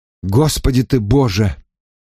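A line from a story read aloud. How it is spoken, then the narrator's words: Disgusted exhale. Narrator (Russian): с отвращением выдохнул я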